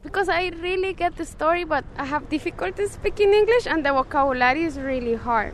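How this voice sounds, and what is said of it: Non-native English accent. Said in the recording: “they laugh at my accent ... my accent is funny and they say it's funny”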